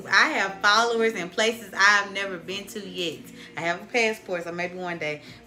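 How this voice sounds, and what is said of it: Strong fast Southern US accent. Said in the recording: “this southern accent ... I'm fast and country ... It's very strong”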